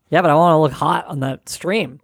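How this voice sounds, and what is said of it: Husky, sultry smoker-like voice. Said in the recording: “you sound hot. ... my sexy voice. ... You got that classic... smoker lady's voice that is oddly enough alluring.”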